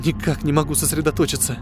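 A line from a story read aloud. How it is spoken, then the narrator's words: Mutter. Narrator (Russian): пробормотала она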